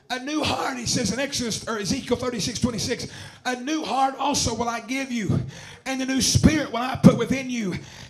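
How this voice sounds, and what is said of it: Worn-out, strained hoarse voice. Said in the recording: “My voice is shot, so I'm trying to give it all I got.”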